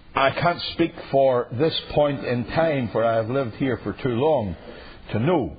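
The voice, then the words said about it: Northern Irish accent. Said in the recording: “I come, as you would understand, from my perfectly heavenly accent, not from Greenville, but from Europe. I come not only from Europe, but from the capital of Europe, Northern Ireland”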